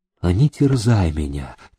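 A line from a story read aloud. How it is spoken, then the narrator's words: Quiet female reply. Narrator (Russian): тихо отозвалась она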